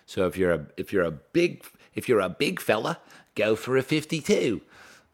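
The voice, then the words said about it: Bad put-on Australian accent. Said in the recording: “That's just the worst Australian accent. I need to stop doing accents.”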